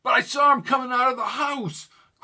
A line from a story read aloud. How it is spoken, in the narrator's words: cried Newton